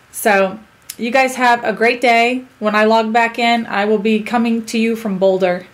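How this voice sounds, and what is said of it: Strained, fading voice. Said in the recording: “I feel like I'm losing my voice again”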